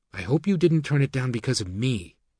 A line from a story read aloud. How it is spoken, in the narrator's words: she said